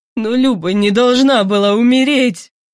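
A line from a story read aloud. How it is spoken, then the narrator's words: Whimpering. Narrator (Russian): прохныкал Кузнецов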